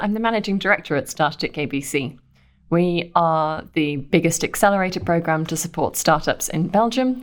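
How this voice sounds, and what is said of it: British accent. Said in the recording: “from the accent, I'm British.”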